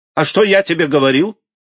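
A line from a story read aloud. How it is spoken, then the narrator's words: Exclamation then laughter. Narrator (Russian): воскликнул Поль и расхохотался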